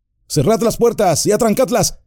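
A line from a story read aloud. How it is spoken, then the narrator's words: Commanding shout. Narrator (Spanish): gritó Aragorn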